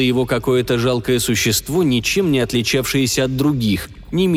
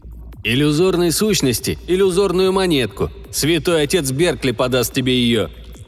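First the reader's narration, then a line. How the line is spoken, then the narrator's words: Cheerful reply. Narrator (Russian): весело отозвался Андрес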